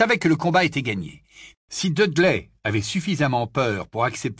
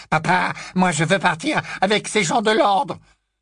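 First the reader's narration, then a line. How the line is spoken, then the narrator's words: Loud voice. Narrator (French): intervint Dudley d'une voix forte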